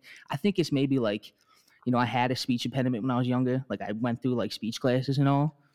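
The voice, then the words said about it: Philadelphia accent. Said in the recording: “is it a Philadelphia accent?”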